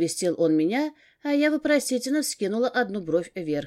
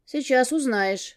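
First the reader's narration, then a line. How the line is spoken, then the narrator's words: Snorting chuckle. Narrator (Russian): хмыкнул Ганс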